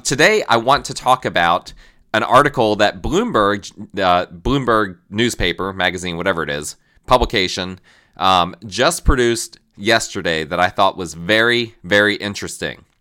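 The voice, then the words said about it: Strained, unwell-sounding voice. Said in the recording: “on less than my normal vocal cords ... my voice is perhaps not the way it normally is”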